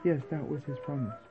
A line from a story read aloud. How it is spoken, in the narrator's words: Sri Jiva said solemnly